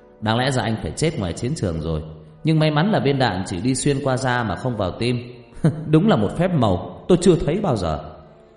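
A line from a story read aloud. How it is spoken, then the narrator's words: Laughing loudly. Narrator (Vietnamese): Vị bác sĩ cười lớn rồi nói thêm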